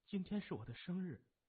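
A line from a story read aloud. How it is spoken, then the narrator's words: Choked, emotional murmur. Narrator (Chinese): 彭玲非常感动，声音有些哽咽，喃喃地说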